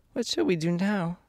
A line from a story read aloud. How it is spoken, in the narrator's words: asked Dorothy sadly